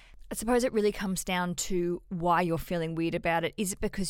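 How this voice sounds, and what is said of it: Usual voice. Nothing is said of it.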